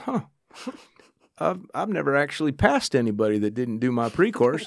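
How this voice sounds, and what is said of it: Southern drawl. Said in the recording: “he's got this Southern drawl.”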